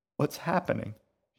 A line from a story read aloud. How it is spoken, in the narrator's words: sobbed